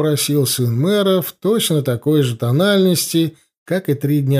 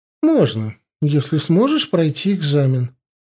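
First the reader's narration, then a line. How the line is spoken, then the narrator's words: Calm reply. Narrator (Russian): спокойно ответила профессор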